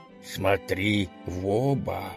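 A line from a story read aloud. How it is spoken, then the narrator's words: Quiet gang leader. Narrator (Russian): тихонько сказал главарь банды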